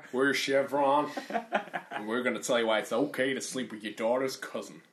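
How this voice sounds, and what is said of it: Put-on accent, poorly done. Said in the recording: “It sounds like a South American country band. ... I'm not good at accents”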